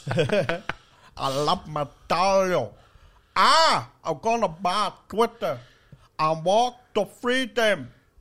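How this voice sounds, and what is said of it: Imitates another person's voice. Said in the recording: “That is a great Elon Musk impression.”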